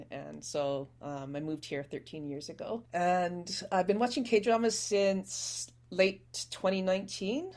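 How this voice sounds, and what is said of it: Canadian accent. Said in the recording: “from the accent you can tell I'm Canadian”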